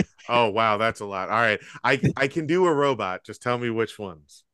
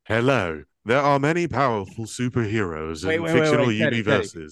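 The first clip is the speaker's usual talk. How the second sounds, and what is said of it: Robot voice. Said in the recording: “Does anybody have a good robot voice?”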